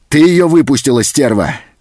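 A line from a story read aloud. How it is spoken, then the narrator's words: Menacing shout. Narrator (Russian): закричал он, угрожающе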